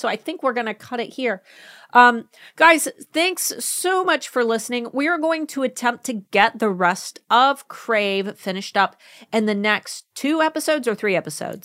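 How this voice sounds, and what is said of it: Hoarse, fading voice. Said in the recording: “I'm losing my voice ... I'm starting to lose my voice.”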